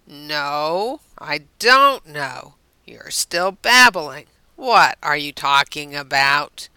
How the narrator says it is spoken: Rodney sighed

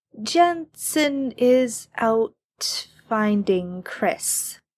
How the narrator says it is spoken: Chad says slowly

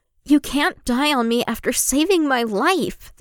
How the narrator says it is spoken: the teenager retorts furiously

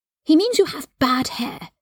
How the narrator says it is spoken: Scorpius told Albus in a stage whisper

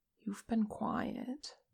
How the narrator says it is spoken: Che murmured

